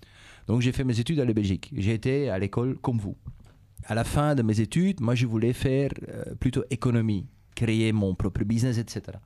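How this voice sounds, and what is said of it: Dutch-speaking Belgian accent in French. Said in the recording (French): “vous l'entendez sans doute à l'accent, je suis d'origine de la Belgique. Ma langue maternelle, c'est le néerlandais”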